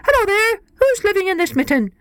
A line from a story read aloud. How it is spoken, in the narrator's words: a rabbit came scurrying up, and when he saw the mitten, he stopped and he called out